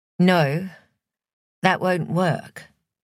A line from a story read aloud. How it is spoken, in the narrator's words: she'd said, sadly